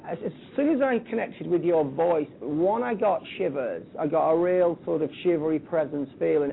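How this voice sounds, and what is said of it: Lancashire English accent. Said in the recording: “you can probably still detect my Blackpool accent, my Lancashire accent, even though I've been away for 10 years”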